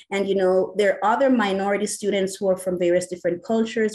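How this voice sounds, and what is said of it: Jamaican accent. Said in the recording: “as you hear, I have an accent. I'm Jamaican.”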